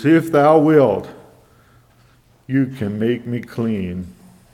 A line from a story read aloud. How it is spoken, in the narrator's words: he cries out to Jesus